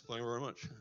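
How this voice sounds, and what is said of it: Elvis impression. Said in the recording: “I did Elvis impersonations ... I wanted to be Elvis”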